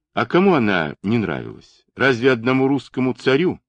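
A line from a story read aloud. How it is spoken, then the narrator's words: Plain. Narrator (Russian): ответила она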